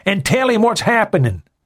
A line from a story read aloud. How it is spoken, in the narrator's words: Murphy shouted over the noise